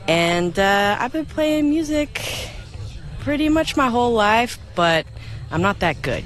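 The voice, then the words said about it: Texas accent. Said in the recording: “I hear the accent. ... That's because I'm nervous. ... I'm from Texas originally.”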